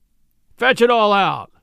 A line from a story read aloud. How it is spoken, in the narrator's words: Shunk Wilson thundered